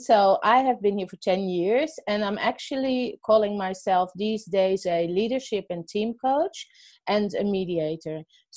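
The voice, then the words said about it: Dutch accent. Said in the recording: “what is that funny accent? I'm actually not from Australia... I'm originally from the Netherlands. So that's hence the accent.”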